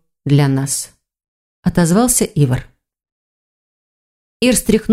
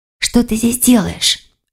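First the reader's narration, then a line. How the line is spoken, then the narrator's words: Whispered question. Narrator (Russian): шепотом спросила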